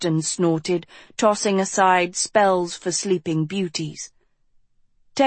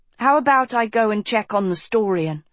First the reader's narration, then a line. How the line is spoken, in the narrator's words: Tristan said quickly